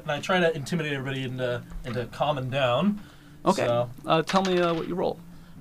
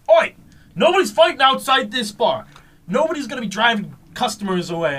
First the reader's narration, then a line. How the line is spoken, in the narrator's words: yell, go